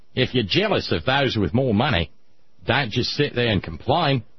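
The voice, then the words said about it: Put-on Australian accent. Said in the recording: “Do you mind if I do the Australian accent? ... You're good at it.”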